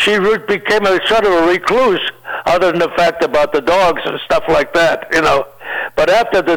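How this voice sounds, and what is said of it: Usual voice. Nothing is said of it.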